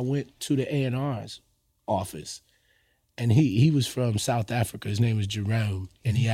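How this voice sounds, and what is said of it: Usual voice. Nothing is said of it.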